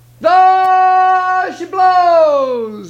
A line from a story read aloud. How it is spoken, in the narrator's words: he hollered